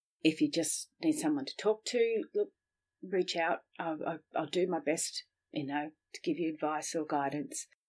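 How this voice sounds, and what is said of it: Mixed English and Australian accent. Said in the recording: “a crazy accent. That's my English and Australian accent mixed up.”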